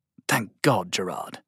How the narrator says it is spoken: Sylvain whispered

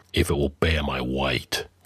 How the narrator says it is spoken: grunted Conan

